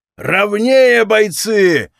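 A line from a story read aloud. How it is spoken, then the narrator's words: Yelling. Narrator (Russian): орал трибун Хомяк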